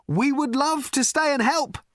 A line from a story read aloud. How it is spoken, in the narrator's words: shouted Ford